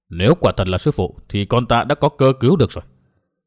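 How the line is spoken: Mutter. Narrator (Vietnamese): Mai Nương lẩm bẩm

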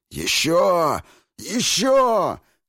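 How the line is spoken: Hoarse wheezing. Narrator (Russian): хрипел Двейн

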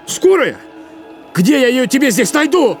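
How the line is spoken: Shouting again. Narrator (Russian): снова закричал Макс

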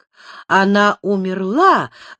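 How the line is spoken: Horrified exclamation. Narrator (Russian): воскликнула в ужасе госпожа де Шуази

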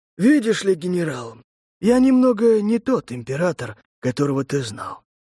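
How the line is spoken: Resolved sigh. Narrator (Russian): вздохнул Маджура, приняв решение

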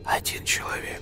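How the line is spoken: Quiet snakelike hissing. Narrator (Russian): по-змеиному присвистывая, тихо проговорил фамильяр

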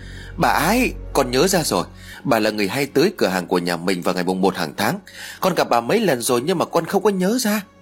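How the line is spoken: Excited child's cry. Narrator (Vietnamese): Thằng Huy ... lập tức reo lên

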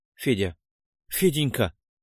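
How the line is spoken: Whisper. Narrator (Russian): Губы шептали

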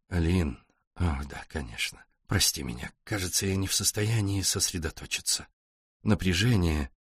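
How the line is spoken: Distracted mumble. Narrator (Russian): Джереми рассеянно пробормотал

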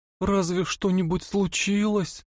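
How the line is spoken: Trembling, holding back sobs. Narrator (Russian): Ее голос дрожал, и она с трудом подавила рыдание

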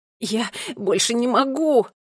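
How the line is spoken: Moan. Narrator (Russian): простонал Томми

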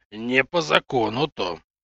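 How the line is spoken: Raised bass, bearlike growl. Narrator (Russian): повысив и без того громкий бас, медведем рыкнул Юр

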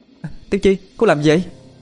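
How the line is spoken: Blurted exclamation. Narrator (Vietnamese): thốt lên

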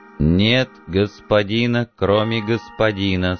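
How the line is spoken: Plain robot voice. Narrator (Russian): сказал робот

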